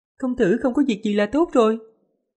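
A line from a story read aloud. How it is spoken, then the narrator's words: Charming, smiling. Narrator (Vietnamese): trên mặt hiện lên vẻ yêu kiều, mỉm cười nói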